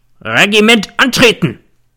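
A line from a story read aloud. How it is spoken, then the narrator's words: Bellowing like old stag. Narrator (German): brüllte wie ein alter Hirsch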